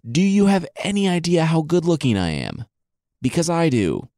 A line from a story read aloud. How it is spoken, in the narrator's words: He yelled at her